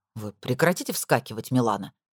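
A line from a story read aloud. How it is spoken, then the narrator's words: Irritated question. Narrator (Russian): раздраженно спросил он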